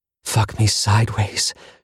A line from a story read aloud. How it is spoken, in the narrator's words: she breathed